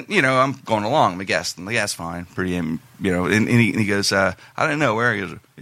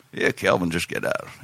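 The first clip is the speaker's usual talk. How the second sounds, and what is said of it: Imitates another person's voice. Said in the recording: “That's how it sounded. Pretty good Uncle Smoke impression”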